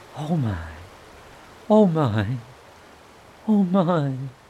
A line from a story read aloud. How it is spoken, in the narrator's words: It was so very beautiful that the mole could only gasp